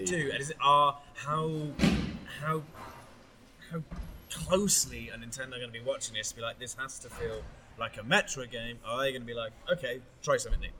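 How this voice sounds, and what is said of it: West Country English accent. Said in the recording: “Are you in a bit of the West Country then? ... in the West Country accent.”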